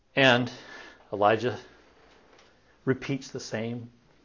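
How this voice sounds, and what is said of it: Usual voice. Nothing is said of it.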